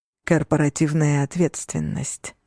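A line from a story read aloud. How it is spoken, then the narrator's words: Plain. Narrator (Russian): сказал Алессандро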